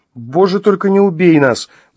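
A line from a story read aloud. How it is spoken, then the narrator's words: Pleading. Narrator (Russian): взмолилась Маша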